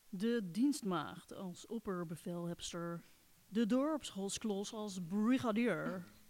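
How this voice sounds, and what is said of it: American accent. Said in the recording (Dutch): “met Amerikaans accent”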